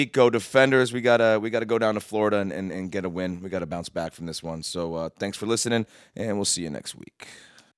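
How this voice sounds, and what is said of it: Rough, tired-sounding voice. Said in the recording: “I had a real rough one last night. Not drinking, just staying up, working late. So sorry for my voice”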